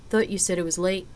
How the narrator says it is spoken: Zena murmured

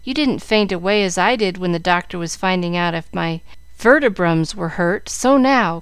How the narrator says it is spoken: cried Jill, bound to carry out her point

